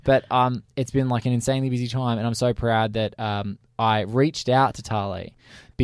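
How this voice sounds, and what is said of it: Tired-sounding voice. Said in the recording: “as you can probably tell by my voice, I feel tired. Like it's starting to come. It's starting to come through.”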